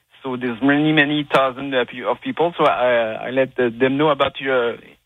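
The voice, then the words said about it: Québécois French accent in English. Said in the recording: “my French accent. I'm from Quebec.”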